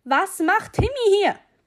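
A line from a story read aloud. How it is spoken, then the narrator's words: Father's booming voice. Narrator (German): polterte die Stimme meines Vaters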